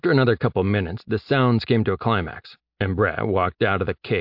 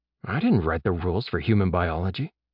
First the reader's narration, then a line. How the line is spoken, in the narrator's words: Jeb whispered